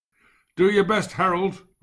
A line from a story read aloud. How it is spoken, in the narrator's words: shouted in the howling wind